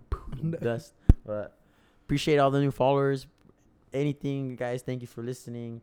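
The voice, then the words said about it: Hoarse, worn-out voice. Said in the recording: “My voice is kind of gone ... my voice is kind of gone. We're screaming.”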